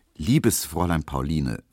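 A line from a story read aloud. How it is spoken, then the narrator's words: Very calm reply. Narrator (German): versetzte Emil Kubinke sehr ruhig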